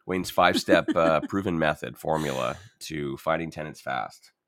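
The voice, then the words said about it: Sarcastic tone. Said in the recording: “you can tell that I'm being sarcastic.”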